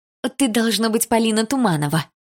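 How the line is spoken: Joyful question. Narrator (Russian): радостно спросила она

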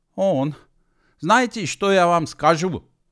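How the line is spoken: Yelling. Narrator (Russian): заорал Гидеван на человечка

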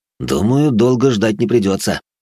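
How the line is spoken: Smirking grunt. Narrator (Russian): хмыкнул я

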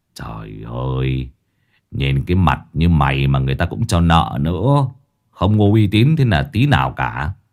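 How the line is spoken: Sighing. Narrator (Vietnamese): Lão Năm thở dài

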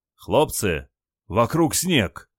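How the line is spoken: Surprised exclamation. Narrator (Russian): удивленно воскликнул Николай

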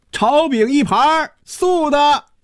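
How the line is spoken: Opera-style theatrical call. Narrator (Chinese): 一声像京戏里叫板一样的喊声

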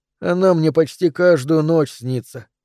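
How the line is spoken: Boy sighing. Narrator (Russian): вздохнул мальчик

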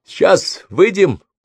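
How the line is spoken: Louder shout than intended. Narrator (Russian): крикнула Брук громче, чем хотела

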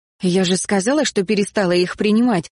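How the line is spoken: Angry. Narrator (Russian): сердито проговорила я

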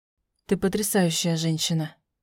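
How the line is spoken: Quiet. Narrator (Russian): тихо сказал мужчина

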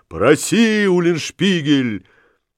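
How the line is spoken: Crowd shouting in unison. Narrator (Russian): вся толпа, как один человек, кричала

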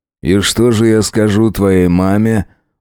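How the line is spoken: Sighing. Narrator (Russian): вздохнул Джек

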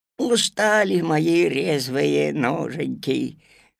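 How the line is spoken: Sighing. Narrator (Russian): вздохнул Кузька

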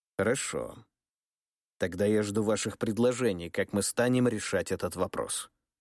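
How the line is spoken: Calm. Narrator (Russian): спокойно кивнул Михаил II

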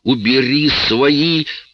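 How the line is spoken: Woman's groan. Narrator (Russian): простонала Лоис

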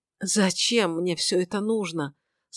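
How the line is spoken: Broken mutter. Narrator (Russian): сломленно пробормотал он

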